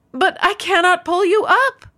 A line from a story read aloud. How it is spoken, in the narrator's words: the man cried